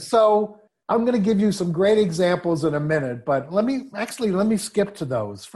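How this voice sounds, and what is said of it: New York accent. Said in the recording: “my New York accent”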